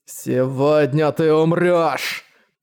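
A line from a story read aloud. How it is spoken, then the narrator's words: Growling. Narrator (Russian): Прорычал он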